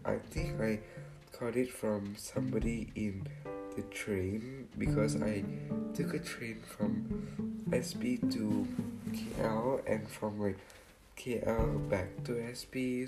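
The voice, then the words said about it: Hoarse, sore-throated voice. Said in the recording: “I'm having a bit of a sore throat... please don't mind my voice... My voice is usually better than this... my voice is really not that great”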